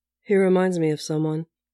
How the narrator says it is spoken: Bucky said, almost calmly

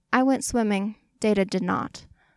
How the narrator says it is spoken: Lore answered

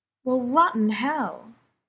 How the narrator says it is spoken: Jane exclaimed

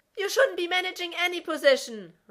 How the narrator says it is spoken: Rodney wailed from the bleachers

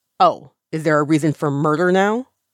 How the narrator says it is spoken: Ye Ming Jue snaps

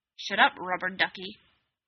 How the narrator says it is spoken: Alec growled

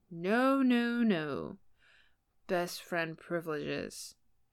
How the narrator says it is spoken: Harry slurred against his pillow

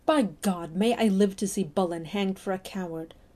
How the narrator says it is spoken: Johnson cried passionately

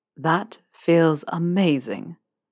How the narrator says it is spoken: Draco sighed

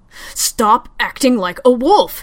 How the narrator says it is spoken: he thunders, his voice echoing off the thin metal walls

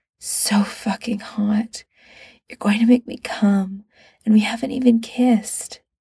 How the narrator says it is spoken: Against his ear, Pete whispered

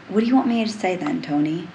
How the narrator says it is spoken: Tony sighs, agitated, frustrated, and desperate

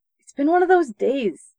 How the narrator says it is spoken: answered nervously

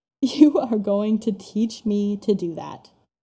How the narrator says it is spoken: Styles laughs

